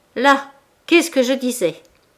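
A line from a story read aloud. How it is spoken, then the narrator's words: Furious shout. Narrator (French): cria la première hors d'elle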